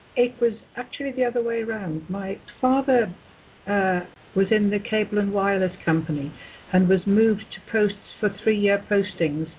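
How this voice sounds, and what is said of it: English accent. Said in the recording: “you are obviously English with that beautiful accent”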